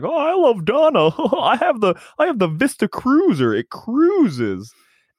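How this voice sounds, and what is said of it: Topher Grace impression. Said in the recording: “a pretty good Topher Grace impression”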